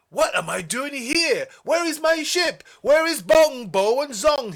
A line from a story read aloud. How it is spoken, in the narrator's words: he cried